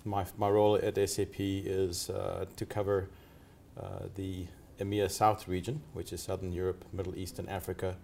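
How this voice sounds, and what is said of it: Mixed South African and American accent. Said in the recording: “my accent, you'll tell, is a bit of a mixed bag. Originally from South Africa, became an American, and now live in Dubai.”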